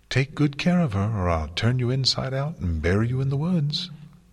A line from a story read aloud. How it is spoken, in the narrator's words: she said in a sing-song voice, smiling brightly